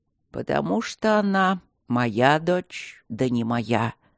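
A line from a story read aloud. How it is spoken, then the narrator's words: Grumbling priest. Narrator (Russian): проворчал жрец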